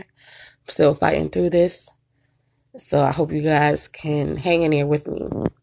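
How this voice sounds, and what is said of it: Voice worn from illness. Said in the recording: “excuse my voice. I'm still a bit under the weather.”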